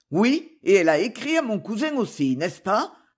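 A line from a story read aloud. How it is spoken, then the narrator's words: Asked harshly. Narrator (French): demanda-t-il durement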